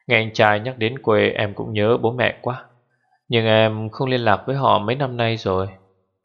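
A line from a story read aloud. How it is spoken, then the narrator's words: Pause, then sighing. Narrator (Vietnamese): ngừng lại một hồi rồi thở dài nói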